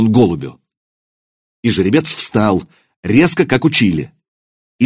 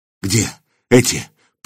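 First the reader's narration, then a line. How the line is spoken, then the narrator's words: Hoarse wheeze. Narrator (Russian): прохрипел Илья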